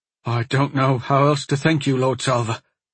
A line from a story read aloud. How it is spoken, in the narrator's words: the man said, choking back tears